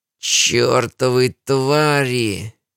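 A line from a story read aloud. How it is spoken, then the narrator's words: Hoarse wheeze. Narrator (Russian): прохрипела измененная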